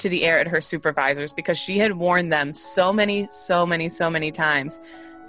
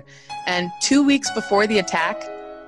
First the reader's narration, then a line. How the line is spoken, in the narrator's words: she pleaded with them